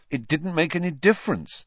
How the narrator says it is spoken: said Harry bitterly

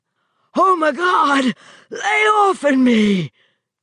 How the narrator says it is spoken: shrieked

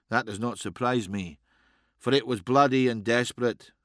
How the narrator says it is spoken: said Alaric

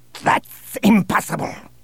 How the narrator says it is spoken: snapped Bossk

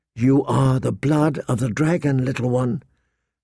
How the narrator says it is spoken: she whispered

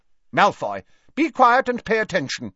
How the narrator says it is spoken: barked Professor McGonagall

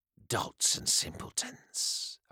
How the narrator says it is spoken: Ionis muttered

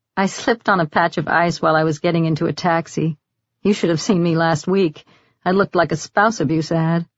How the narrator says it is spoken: Nora said with an embarrassed little laugh

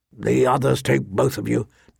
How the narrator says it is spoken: Ned muttered darkly

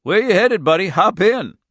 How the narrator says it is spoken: the Jew said and laughed

